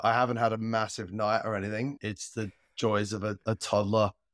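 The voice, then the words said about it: Unwell, fading voice. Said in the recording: “slightly under the weather ... losing my voice”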